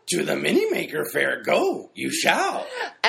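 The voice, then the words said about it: Yoda impression. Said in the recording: “your Yoda impression ... your Yoda impersonation”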